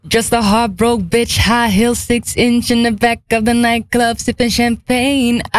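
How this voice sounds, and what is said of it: Put-on English accent while singing. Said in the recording (Dutch): “ik ga haar Engels accent naar doen ... Ik moet nog werken aan mijn accent”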